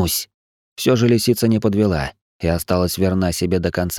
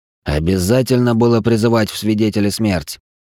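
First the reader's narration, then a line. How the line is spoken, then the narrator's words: Growling. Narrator (Russian): прорычал Вициус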